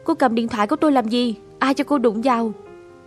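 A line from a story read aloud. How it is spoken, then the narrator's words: Loud angry shout. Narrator (Vietnamese): hét lớn vào mặt cô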